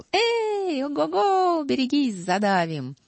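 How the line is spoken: Cheerful playful shouting. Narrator (Russian): Весело умчались в лес озорные зайцы

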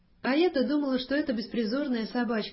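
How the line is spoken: Cheerful, laughing. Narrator (Russian): весело проговорила и засмеялась

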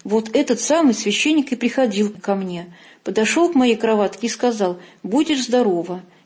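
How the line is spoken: Exclamation. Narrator (Russian): она воскликнула

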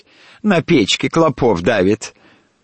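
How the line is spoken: Laughing. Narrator (Russian): Гутя смеялась

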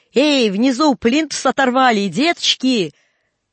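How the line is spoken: Shout. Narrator (Russian): Костыль крикнул

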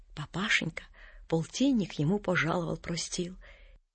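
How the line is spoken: Whisper. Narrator (Russian): пошептал

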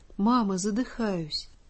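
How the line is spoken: Barely audible whisper. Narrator (Russian): еле слышно шепчет

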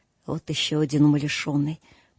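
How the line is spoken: Muttering. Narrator (Russian): пробормотал Скрудж

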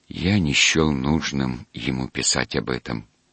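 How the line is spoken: Quiet objection. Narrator (Russian): тихо возразил он

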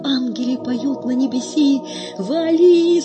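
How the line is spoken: Sudden cry. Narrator (Russian): скрикивает Горкин

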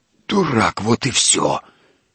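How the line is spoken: Wheeze. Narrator (Russian): просипел Емельян

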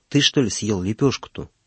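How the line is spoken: Old man whispering. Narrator (Russian): шепнул ему старик

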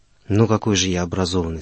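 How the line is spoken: Calm reply. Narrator (Russian): спокойно ответил он мне

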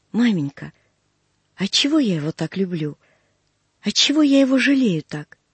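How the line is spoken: Trembling voice, near tears. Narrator (Russian): Продолжала она дрогнувшим голосом, и глаза у нее заблестели от слез

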